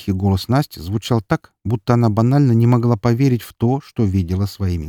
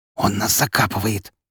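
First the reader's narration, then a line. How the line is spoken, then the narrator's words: Hiss. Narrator (Russian): прошипел я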